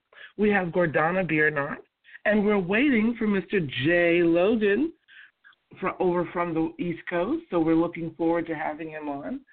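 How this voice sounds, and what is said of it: Congested voice from a cold. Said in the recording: “excuse my voice. Unfortunately, in the summer, I do have a cold.”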